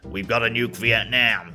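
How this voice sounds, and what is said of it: Rough Richard Nixon impression. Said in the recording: “That's not even close to Richard Nixon's accent, but it'll do.”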